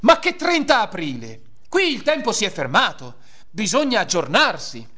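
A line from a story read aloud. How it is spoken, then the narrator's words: Yelled. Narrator (Italian): con un urlo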